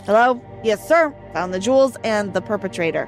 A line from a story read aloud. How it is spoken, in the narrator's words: the officer said